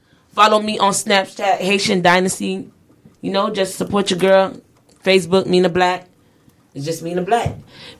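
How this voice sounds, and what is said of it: Noticeable accent. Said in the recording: “that accent was kicking in, so I was just all messing up”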